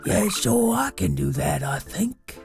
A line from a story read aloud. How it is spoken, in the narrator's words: rasped Zora in her deep bear voice